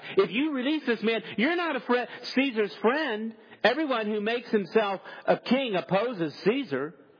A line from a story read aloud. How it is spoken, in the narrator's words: the Jews cried out